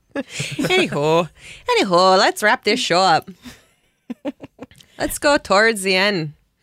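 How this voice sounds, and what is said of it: Attempted North Dakota accent, sounds British. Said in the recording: “Oh, you're being British. ... No, I was being North Dakotan. ... Oh, that sounded British weirdly. ... I don't do accents well. ... That's a hard accent, Fargo.”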